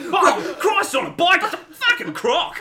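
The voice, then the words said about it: Put-on Australian accent. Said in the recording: “As much as I love an Aussie one ... You're feeling Steve Irwin.”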